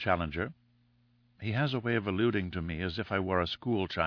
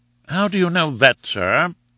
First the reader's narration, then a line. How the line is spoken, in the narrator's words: asked Summerlee, sharply